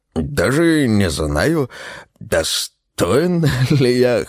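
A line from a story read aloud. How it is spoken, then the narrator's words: House spirit's amused grunt. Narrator (Russian): хмыкнул домовой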